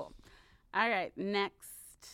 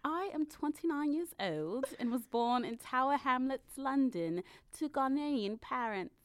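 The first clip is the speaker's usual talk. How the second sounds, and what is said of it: Put-on posh British accent. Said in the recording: “I'm so tempted to do this in an accent ... Sorry, London ... She doesn't sound like this ... I sound like Dowager Countess”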